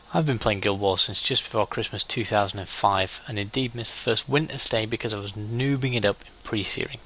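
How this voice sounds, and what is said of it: British accent. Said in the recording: “British, hence the accent.”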